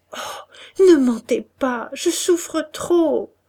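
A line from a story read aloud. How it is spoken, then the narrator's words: Sobbing. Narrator (French): elle sanglota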